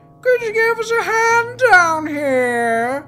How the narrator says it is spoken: She shouted upwards

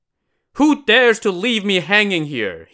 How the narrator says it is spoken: shouted

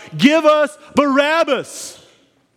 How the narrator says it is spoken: the people now begin to shout

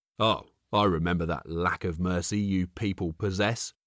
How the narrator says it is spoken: Jackson barked back

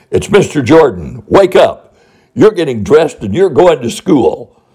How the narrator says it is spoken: said in a loud, commanding voice

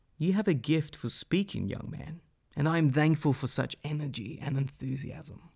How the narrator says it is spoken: The old man said in a wise, peaceful, and honest voice

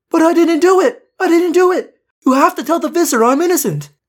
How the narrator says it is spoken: She started to yell

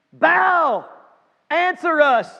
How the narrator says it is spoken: they shouted

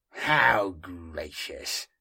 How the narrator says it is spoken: said Inquisitor Heron bitterly

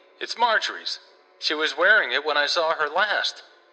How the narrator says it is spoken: cried Sidney

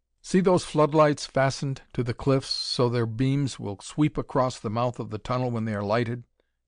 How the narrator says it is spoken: he said

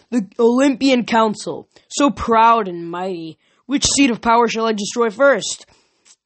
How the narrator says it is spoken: he bellowed

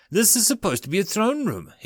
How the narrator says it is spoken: he exclaims

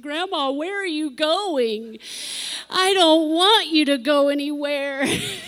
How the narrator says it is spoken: She'd squall and bawl and cry on the floor because she said

